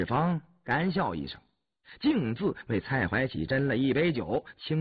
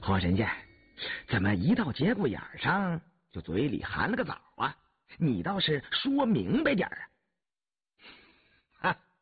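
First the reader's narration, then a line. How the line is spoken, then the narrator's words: Laughing question. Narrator (Chinese): 蔡怀喜笑问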